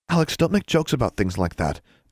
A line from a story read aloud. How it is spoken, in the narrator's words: Anna said nervously